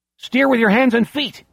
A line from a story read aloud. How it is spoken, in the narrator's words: Beezer shouts